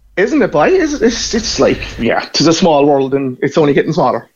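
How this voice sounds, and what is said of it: Irish Cork accent. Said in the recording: “I hear your accent ... You're from Cork. And from that accent”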